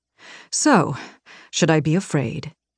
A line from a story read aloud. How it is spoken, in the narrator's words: he murmured, the smile fading on his lips